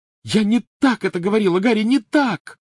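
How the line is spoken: Screaming. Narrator (Russian): закричала она

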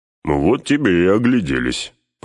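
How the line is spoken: Grumbling. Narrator (Russian): проворчал Гимли

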